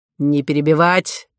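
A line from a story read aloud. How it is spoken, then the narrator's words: Sharp shout. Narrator (Russian): прикрикнул на нее полковник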